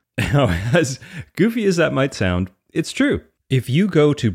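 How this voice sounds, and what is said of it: Usual voice. Nothing is said of it.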